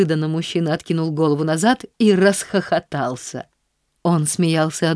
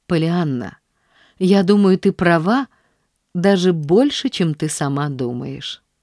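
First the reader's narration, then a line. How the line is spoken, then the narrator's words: Said gently. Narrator (Russian): сказал он ласково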